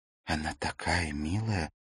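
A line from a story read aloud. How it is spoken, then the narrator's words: Whisper. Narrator (Russian): прошептала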